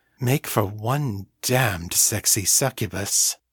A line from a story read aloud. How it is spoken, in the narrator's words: purred